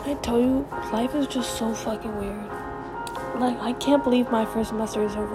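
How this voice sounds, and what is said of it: Whispering. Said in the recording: “I'm whispering because my fucking family's nosy”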